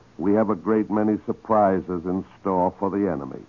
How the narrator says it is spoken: Churchill chuckled and said

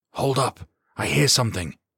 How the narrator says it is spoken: he hissed into the room

